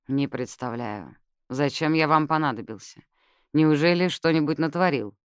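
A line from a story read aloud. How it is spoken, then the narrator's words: Snorting. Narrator (Russian): Лорд хмыкнул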